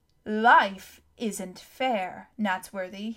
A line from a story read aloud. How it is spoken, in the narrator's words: boomed